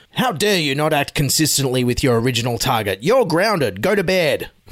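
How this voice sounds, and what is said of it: Scott Morrison impression. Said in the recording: “my Scott Morrison impersonation there. Book me now for your Christmas party.”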